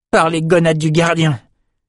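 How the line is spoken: Exclaiming. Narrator (French): s'exclama Jed

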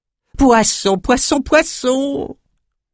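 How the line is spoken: Squeaked. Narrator (French): couina Crayeux

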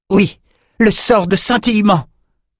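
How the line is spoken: Exclaimed. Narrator (French): s'écria Oliver

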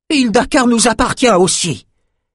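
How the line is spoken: Old woman exclaiming. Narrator (French): s'écria une vieille femme

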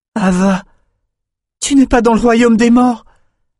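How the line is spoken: Exclamation. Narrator (French): s'écria Ruva

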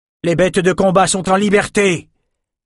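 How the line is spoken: Guard shouting. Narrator (French): cria un garde nommé Stuart

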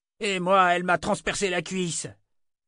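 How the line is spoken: Victim's pained cry. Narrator (French): cria l'autre victime de Jensen

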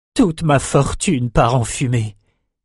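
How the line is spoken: Moaning. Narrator (French): gémit

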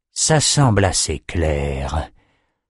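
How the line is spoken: Muttering. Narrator (French): marmonna le sorcier

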